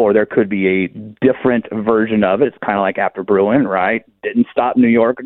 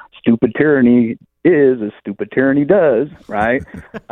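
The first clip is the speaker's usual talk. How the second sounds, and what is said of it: Imitates a movie character's voice. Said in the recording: “my best Forrest Gump impersonation”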